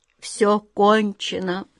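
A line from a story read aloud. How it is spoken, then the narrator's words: Groan. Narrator (Russian): простонал Гвен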